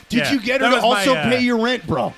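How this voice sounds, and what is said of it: Sleazy scumbag character voice. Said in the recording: “That was my impression of a scumbag.”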